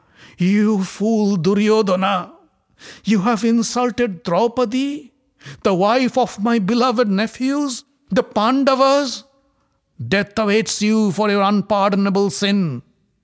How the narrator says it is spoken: As if waking up from a deep slumber, Dhritarashtra cried out

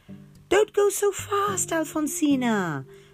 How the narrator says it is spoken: her parents would scream

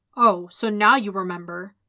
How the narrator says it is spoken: Stick growled

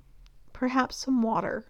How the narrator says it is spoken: Hecate murmurs, feeling as though her mouth has suddenly dried up

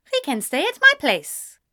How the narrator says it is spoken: she said cheerfully

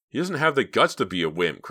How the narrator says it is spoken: cried David

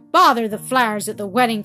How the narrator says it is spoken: cried Peter

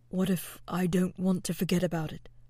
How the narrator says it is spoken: the captain asked quietly, his words barely a murmur in the wind

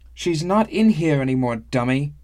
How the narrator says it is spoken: shouted Isru

